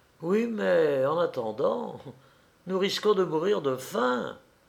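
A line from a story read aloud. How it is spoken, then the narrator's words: Sighing. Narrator (French): ajouta Delphine avec un soupir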